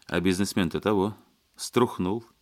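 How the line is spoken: Quiet laugh. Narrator (Russian): негромко рассмеялся Леонидов

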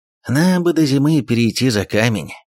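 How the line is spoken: Displeased snuffling mutter. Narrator (Russian): недовольно сопя буркнул

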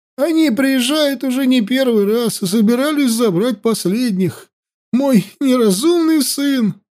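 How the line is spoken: Old man sobbing. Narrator (Russian): старик всхлипнул

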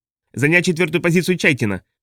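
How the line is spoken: Shout, feigned confidence. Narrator (Russian): крикнул Чарни с наигранной уверенностью в голосе

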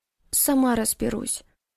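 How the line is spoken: Barely audible. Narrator (Russian): произнесла едва слышно

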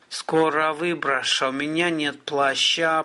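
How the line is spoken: Groaning. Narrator (Russian): простонал Гарин

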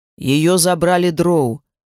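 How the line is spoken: Grim. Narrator (Russian): мрачно проговорил он

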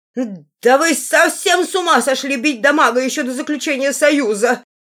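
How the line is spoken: Hysterical screeching parrot. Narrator (Russian): истерически вопил попугай

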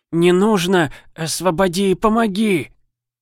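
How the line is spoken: Moaning. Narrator (Russian): Простонал олигарх

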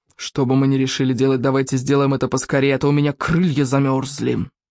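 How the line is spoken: Grumbling. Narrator (Russian): проворчал Яркоготь

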